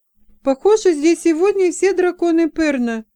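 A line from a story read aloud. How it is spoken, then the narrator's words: Astonished exclamation. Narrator (Russian): воскликнула, пораженная их воинственным настроением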